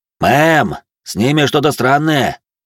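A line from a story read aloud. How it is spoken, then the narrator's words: Shout through speaker. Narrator (Russian): крикнул динамит Вероники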